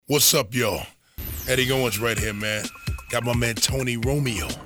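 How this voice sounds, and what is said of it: Hoarse, raspy voice. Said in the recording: “Your boy's a little hoarse out here ... A little raspy.”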